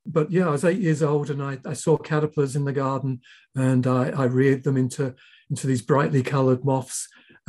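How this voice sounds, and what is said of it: English accent. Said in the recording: “I was born in England, as you can tell by my accent.”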